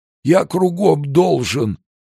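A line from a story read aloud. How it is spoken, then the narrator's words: Trembling old man whimpering. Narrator (Russian): продолжал хныкать старик, весь дрожа от жажды алкоголя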